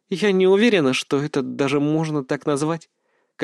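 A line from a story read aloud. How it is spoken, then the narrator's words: Sad, smiling. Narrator (Russian): как-то печально улыбнулась она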